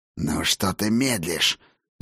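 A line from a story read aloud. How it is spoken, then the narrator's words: Hissing. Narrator (Russian): зашипел мне Ракот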